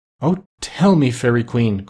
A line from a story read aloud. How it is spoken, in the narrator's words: cried Bumpo, clasping his hands in joy